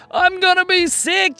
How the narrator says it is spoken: yelled Luca

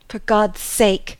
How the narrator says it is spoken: he cried in his sleep

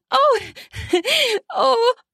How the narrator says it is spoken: gasped and squealed

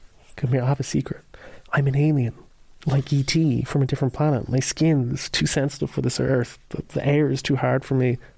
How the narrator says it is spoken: while bedridden, like, he whispers to her, like

